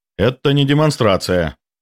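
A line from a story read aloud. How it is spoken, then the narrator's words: Sharp interruption. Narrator (Russian): резко перебил я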